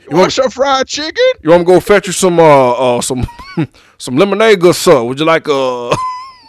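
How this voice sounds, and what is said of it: Put-on Southern butler accent. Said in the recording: “who has a butler with like a southern accent? ... a white one.”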